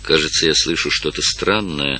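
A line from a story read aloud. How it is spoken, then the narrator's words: Quiet. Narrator (Russian): сказал тихо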